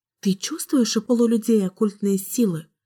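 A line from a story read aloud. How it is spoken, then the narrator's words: Whisper. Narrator (Russian): прошептала Кэлен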